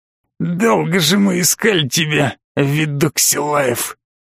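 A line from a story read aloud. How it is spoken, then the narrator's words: Slightly husky, sarcastic man. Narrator (Russian): С легкой хрипотцой и, как ему казалось, пугающей язвительностью произнес незнакомый бандит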